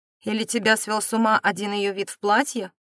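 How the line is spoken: Knowing snort. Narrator (Russian): Филипп, понимающе хмыкнул

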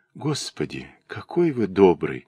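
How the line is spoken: Grateful whisper. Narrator (Russian): шептала она

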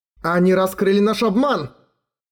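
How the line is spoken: Shout. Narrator (Russian): крикнул эльф Утхинарё

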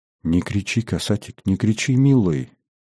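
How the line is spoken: Gentle, affectionate plea. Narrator (Russian): ласково попросила Фёкла

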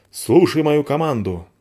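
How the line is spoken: Imposing bark. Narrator (Russian): рявкнула спичка внушительно

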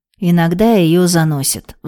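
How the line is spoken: Sigh. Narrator (Russian): вздохнул тогда Леша

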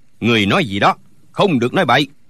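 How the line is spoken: Shout. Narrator (Vietnamese): Thạch Thanh cũng quát lên

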